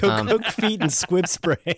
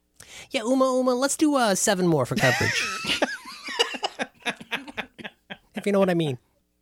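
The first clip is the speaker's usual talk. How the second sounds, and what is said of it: Impression of Randy from Pee-wee. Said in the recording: “I like your impression. That's good. ... That's Randy from Pee Wee.”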